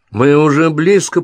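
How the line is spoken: Shouted. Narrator (Russian): прокричал Том

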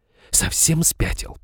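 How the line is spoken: Furious hiss. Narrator (Russian): прошипела взбешенная Изабелла

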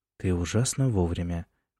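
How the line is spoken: Quiet. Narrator (Russian): тихо сказал Джеймс

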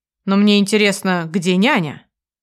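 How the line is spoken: Very calm question. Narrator (Russian): Соколовский очень спокойно спрашивает

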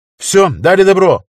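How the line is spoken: Shouted, pilot. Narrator (Russian): крикнул пилот

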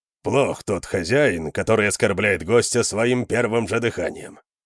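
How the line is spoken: Grumbling. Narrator (Russian): проворчал Конан

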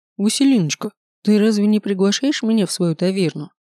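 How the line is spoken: Seemingly joking question. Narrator (Russian): спросил Седрик вроде бы шутливым тоном

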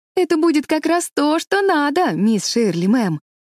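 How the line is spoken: Delighted exclamation. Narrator (Russian): воскликнула Шарлотта в восторге

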